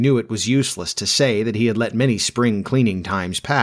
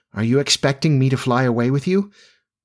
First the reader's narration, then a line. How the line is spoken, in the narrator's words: she said, faltering